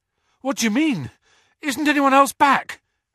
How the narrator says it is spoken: Harry panted

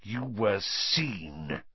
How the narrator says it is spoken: he hissed

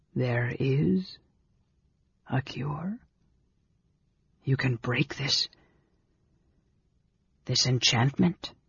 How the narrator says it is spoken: weakly, he whispered hoarsely

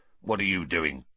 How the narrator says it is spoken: Filch snarled suspiciously

